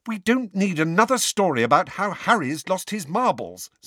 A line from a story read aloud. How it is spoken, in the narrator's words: said Hermione angrily